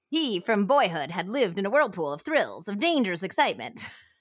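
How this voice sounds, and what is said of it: Put-on old-fashioned accent. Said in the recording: “you ready for the accent? ... I'm going to try to do it. ... Okay, guys, I can't do it anymore.”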